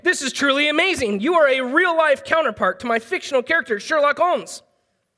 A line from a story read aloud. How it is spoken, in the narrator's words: Doyle exclaimed